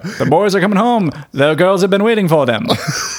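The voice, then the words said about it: Put-on mid-Atlantic newsreel accent. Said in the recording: “mid-Atlantic accent”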